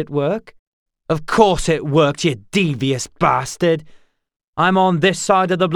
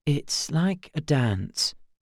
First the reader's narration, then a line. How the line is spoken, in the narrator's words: he whispered